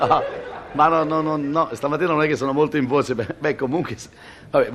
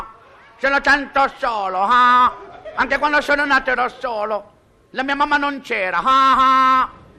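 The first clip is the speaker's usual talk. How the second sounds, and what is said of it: Imitates another person's voice. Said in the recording (Italian): “l'imitazione di Jerry Lewis”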